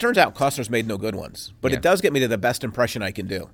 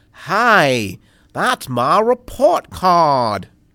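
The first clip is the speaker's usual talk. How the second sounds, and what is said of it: Botched Boston accent, Costner impression. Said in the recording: “Costner has to do a Boston accent ... You sounded more Southern than Bostonian ... Costner totally botches it. Like, the guy can't do accents.”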